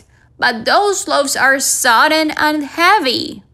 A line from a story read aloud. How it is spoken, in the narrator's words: cried